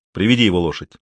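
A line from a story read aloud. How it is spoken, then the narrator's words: Angry command. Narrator (Russian): сердито приказал он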